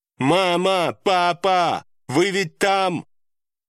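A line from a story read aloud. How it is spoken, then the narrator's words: Loud shout. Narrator (Russian): Громко прокричала Чивон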